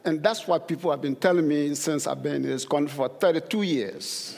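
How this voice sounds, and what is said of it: Very thick accent. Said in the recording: “I have a very thick accent. ... I'm still being told I have a thick accent.”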